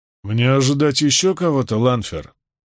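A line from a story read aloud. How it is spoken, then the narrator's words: Grumble. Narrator (Russian): пробурчал Равен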